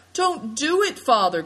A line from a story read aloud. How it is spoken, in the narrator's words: cried Seven Stars